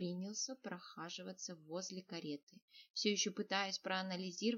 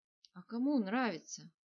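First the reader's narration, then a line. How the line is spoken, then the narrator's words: Heavy sigh. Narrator (Russian): Тяжело вздохнул Нир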